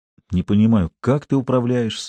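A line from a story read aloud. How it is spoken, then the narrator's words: Sigh. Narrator (Russian): вздохнул он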